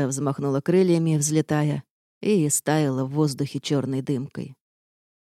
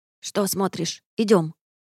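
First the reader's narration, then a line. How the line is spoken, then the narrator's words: Grumpy creature mutter. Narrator (Russian): Недовольно буркнула помесь шиншилла и тушканчика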